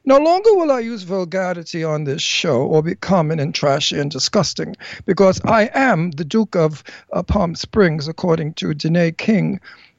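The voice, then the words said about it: Slight put-on British English accent. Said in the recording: “I'm using an English accent ... now I can't speak Brooklyn anymore. I'm speaking with a British accent ... you'll have to listen to me with a slight English accent.”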